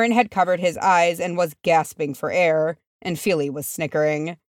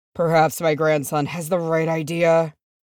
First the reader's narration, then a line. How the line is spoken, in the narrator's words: Thrain said wearily